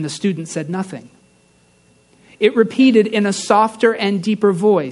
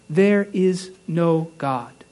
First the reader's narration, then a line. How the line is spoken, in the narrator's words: Slowly and gravely, human reason repeated